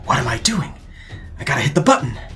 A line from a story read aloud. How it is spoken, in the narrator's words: She appears groggy, but she shakes her head, and she kind of says under her breath